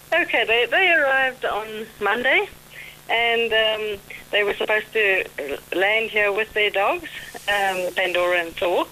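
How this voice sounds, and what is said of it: Slight South African accent. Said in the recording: “do I detect a little South African accent there? ... You have a lovely accent. I love that South African accent”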